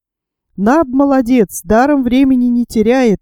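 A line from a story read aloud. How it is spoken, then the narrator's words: Exclaimed. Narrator (Russian): воскликнул Пенкроф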